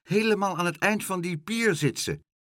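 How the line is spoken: Calling out. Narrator (Dutch): riep Karel

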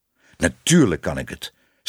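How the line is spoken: Stern self-talk. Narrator (Dutch): zei streng tegen zichzelf

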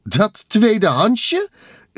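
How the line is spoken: Exclaiming. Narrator (Dutch): riep Carmen uit

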